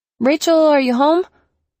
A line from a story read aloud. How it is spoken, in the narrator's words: I shouted